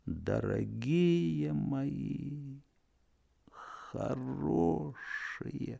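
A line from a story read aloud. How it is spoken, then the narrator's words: Hopeless farewell sigh. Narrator (Russian): вздохнув безнадежно, прощально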